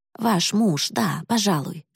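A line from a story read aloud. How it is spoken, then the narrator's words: Plain. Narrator (Russian): сказала мисс Бивер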